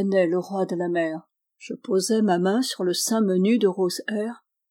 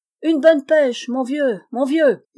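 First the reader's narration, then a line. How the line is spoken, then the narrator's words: Yelled. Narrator (French): hurla Jean-Marie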